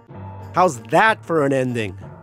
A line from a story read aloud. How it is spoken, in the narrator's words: I shouted